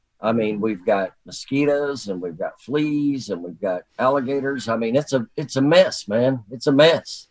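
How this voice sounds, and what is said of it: Accent people took for Texan. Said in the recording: “people would hear me talking, they'd say, "Oh, you're in Texas?" And they all made fun of the way I talked to them and my accent”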